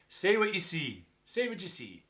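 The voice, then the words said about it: Northern Irish accent. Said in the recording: “That's my Northern Irish accent.”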